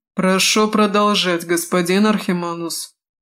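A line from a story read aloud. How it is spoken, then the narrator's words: Icy tone. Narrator (Russian): ледяным тоном промолвил Крэд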